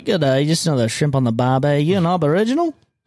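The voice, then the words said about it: Bad put-on Australian accent. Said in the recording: “Australian accent. ... Give me a little more of that accent. ... That's so fucking bad. ... Sounds like, really bad. ... You sound like Lloyd Christmas.”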